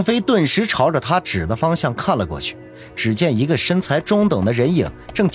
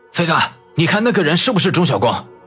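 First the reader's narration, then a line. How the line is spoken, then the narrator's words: Sudden loud speech. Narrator (Chinese): 郑飞手下的一个兄弟忽然大声的说道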